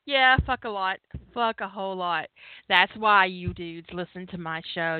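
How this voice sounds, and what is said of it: Sweet girlish voice, Southern accent. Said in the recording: “my sweet little girl voice with the southern accent”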